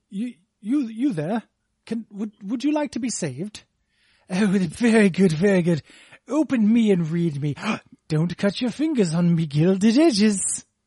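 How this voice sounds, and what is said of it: Posh British accent slipping to working-class. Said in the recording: “you can do a British accent ... it started out quite posh at the beginning there ... He did say me edges at the end”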